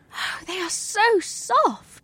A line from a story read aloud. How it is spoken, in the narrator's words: she breathed